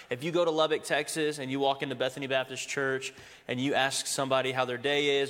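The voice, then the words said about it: Thick American accent. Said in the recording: “I'm the one with a thick accent”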